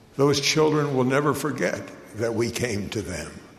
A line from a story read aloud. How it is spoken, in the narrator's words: the bishop said quietly to me